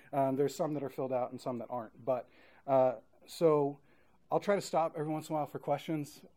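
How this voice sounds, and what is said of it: Talks very fast. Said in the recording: “sorry for talking really fast ... if I talk too fast”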